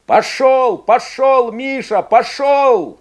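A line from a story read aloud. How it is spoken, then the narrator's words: Shouting. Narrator (Russian): кричал Игорь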